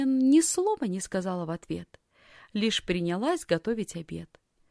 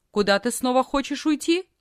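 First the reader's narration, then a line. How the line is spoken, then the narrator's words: Stern question. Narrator (Russian): тетя строго спросила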